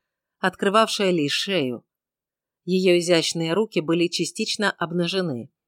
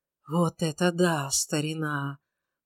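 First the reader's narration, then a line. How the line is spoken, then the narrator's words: Whispered. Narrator (Russian): прошептал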